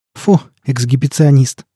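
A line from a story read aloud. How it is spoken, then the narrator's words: Mocking snort. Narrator (Russian): насмешливо фыркнула Лоя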